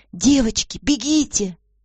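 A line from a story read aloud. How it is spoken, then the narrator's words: Sudden cry. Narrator (Russian): Госпожа Файк вскрикнула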